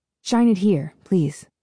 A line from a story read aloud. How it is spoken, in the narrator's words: he asks